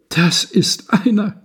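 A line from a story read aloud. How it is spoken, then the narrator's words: Woman sobbing. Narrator (German): schluchzte die Frau auf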